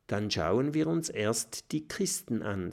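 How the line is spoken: Plain. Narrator (German): sagt Kokosnuss

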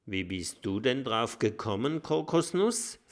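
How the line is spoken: Plain. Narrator (German): fragt Lulu

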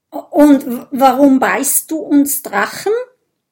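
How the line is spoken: Stuttering reply. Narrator (German): antwortet Bisbert stotternd

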